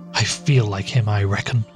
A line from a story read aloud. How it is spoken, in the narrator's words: responds Everts gloomily